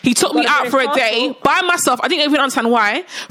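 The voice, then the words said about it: British accent. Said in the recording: “I'm British. ... I've got a British accent.”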